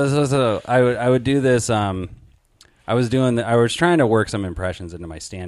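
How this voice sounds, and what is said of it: Usual voice. Nothing is said of it.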